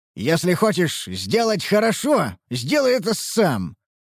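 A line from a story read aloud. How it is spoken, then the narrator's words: Growled. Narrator (Russian): прорычал я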